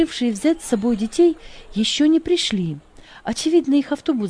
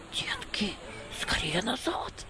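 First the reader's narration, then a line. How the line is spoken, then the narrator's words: Whisper. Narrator (Russian): зашептал он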